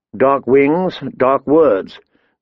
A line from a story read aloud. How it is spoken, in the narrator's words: Ned said grimly